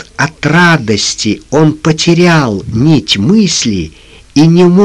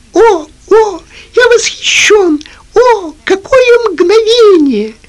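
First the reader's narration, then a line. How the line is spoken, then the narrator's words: Squeaking. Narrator (Russian): пищал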